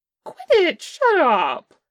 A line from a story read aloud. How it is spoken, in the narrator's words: Che squeaked